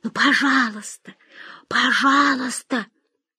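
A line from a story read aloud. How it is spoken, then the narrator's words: Whispering in ear. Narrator (Russian): Мария, ерзая у нее на коленях, шептала в ухо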